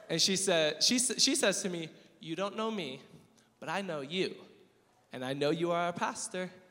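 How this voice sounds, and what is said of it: Imitated African accent. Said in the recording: “in her beautiful African accent”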